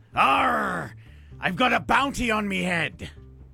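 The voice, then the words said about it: Funny pirate voice. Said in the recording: “I get to do a funny voice.”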